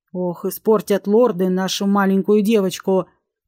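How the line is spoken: Muttered under breath, man. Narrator (Russian): Пробурчал себе под нос бородатый сухопарый Динар

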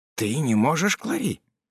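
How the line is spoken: Whisper. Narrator (Russian): прошептал де Вадрель

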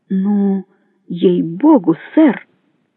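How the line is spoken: Uncertain exclamation. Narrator (Russian): неуверенно воскликнул

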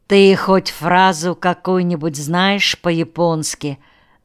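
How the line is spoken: Plain. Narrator (Russian): спросил я Виталия

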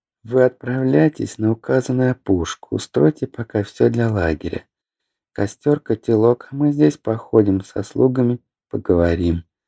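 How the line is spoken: Whispered. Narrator (Russian): шепнули Лидора и Фелиса

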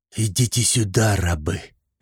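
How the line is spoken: Hissing command. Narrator (Russian): прошипел Шузмарал

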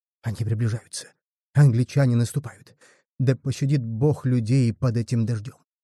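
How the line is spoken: Whispering. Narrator (Russian): Арабы шептали

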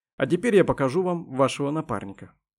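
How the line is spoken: Calm statement. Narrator (Russian): спокойно произнес Дронго

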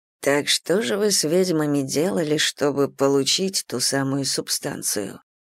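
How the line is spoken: Whispering in ear. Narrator (Russian): прошептал он мне на ухо

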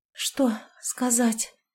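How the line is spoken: Breathless exhale. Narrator (Russian): выдохнула я

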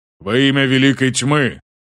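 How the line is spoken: Booming proclamation. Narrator (Russian): Гулко провозгласила Берин

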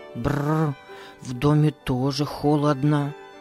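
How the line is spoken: Mutter. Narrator (Russian): пробормотал он

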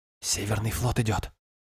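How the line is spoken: Whisper. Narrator (Russian): шепнула Йортрен

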